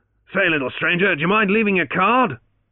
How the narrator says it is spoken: the victor called out after him

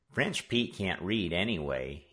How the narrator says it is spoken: he muttered

